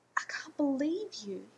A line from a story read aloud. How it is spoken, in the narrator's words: hissed